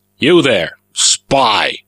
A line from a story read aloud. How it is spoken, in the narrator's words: Melko barked